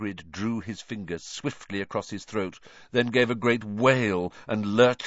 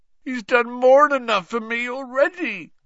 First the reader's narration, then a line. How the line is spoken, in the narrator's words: groaned Hagrid